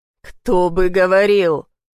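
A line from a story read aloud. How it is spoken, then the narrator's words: Displeased hoarse wheeze. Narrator (Russian): Прохрипел, недовольно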